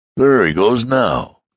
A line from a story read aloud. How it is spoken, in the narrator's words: exclaimed the gentleman